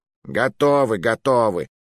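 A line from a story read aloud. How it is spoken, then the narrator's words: Grumble. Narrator (Russian): проворчал Маруа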